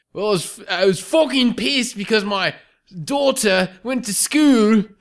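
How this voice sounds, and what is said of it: Put-on Australian accent. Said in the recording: “in your best British accent... No, make it Australian.”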